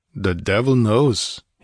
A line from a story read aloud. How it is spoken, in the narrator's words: he grunted